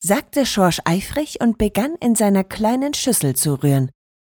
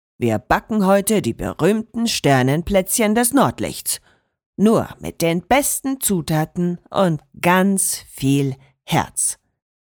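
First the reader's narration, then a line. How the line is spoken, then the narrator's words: Said sternly. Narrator (German): sagte Enzo streng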